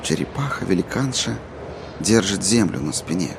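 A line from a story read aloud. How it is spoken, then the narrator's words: Mumbled. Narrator (Russian): пробормотал Джейк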